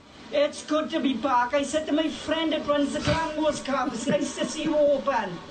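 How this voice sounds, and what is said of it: Welsh accent. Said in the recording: “That's a Welsh accent.”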